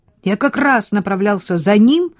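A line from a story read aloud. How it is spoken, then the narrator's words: Declaring. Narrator (Russian): заявил он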